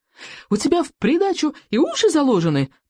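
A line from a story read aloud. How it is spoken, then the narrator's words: Squeaky voice. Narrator (Russian): пищал Рыбьенок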